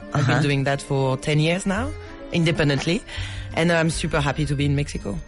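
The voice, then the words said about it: French accent in English. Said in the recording (Spanish): “¿Qué tal el acento? ... Tal el acento?”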